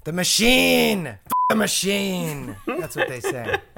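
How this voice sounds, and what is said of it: Impression of Jack Lemmon's Shelley Levine. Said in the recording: “with a little impersonation in there as well. Levine was played in the movie by Jack Lemmon.”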